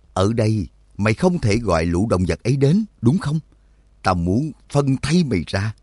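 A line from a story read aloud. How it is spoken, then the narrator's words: Harsh, menacing tone. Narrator (Vietnamese): gằn giọng nói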